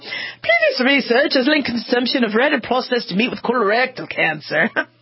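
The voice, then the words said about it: Poor put-on British accent. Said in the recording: “I don't do a good British accent ... I'm no Pippa Middleton?”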